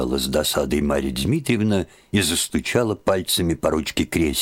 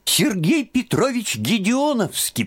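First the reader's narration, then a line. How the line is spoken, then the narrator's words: Squeaky boy's voice. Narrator (Russian): пропищал краснощекий казачок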